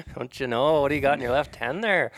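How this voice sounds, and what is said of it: Put-on Canadian accent. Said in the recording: “If someone's talking in an accent, then I can talk in an accent. ... That's not Canadian ... Should I do the whole podcast in this voice?”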